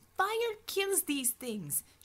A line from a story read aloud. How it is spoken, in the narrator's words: she shouted